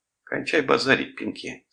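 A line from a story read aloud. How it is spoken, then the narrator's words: Stern. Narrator (Russian): строго сказал Томас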